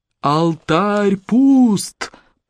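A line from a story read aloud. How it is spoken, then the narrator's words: Roar. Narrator (Russian): проревел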